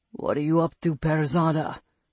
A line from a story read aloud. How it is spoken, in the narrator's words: her mate's voice rumbled in her head